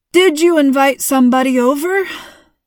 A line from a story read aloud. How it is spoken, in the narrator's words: Mom laughed